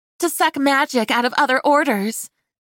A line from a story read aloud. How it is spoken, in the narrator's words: Kylie called out, seeming excited